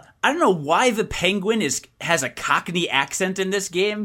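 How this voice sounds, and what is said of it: Usual voice. Nothing is said of it.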